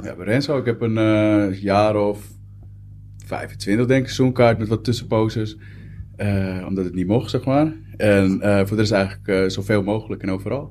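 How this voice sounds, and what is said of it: Slight Amsterdam accent. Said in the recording (Dutch): “je hebt een wat Amsterdamse accent.”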